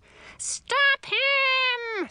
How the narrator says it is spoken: screamed Grandmother

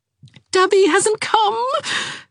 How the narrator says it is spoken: said Jarvis wildly

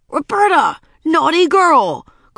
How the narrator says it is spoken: cried Ramona

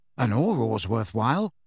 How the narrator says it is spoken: said Harry

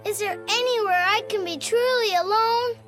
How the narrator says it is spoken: said with a moan

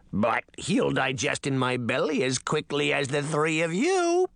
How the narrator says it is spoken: the frog girl croaked

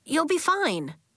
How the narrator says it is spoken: Elliot said, glancing nervously

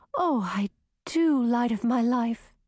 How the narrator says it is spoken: breathed Grissina

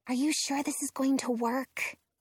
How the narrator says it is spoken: Robin whispers to me

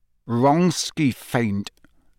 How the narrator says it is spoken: said Harry through gritted teeth

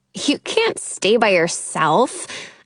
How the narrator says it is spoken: I scoff

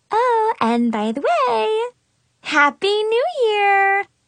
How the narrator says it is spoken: Mackenzie chirped, all happy and friendly-like

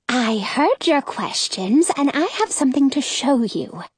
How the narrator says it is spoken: Carolyn whispers

